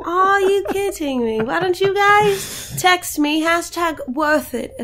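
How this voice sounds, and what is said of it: Usual voice. Nothing is said of it.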